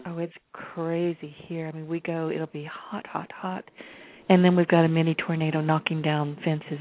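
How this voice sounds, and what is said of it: Raspy voice. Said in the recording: “I'm very raspy myself today... it's affecting my voice, no question about it”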